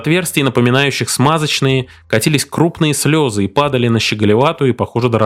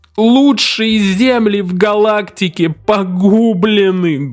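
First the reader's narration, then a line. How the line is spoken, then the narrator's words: Sorrowful moan. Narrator (Russian): горестно простонал клиент, верзила 7 футов ростом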